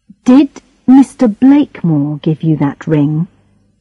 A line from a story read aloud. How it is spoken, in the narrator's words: She started to cry quietly, angrily